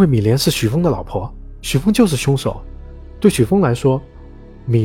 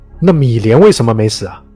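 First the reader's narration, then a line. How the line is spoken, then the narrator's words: Loud question. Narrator (Chinese): 李杰大声问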